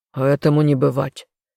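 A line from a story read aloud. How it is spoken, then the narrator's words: Gruff growl. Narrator (Russian): рыкнул отец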